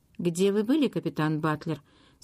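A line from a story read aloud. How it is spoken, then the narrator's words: Plain. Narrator (Russian): спросил Арчи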